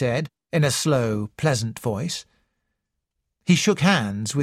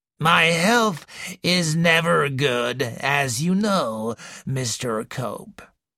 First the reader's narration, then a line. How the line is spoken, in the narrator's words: wheezed the old lady